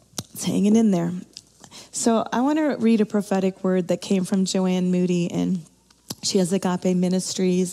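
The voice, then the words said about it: Weak, strained voice. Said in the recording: “Bear with me in my little voice here.”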